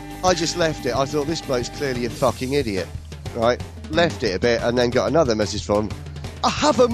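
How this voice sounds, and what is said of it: Usual voice. Nothing is said of it.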